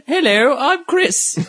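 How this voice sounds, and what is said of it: Fancy imitation of another person's voice. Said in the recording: “I'll do a good Chris impression. ... Fancier. Much fancier. Yeah, it's a fancy.”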